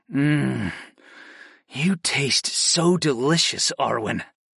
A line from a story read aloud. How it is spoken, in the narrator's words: I murmured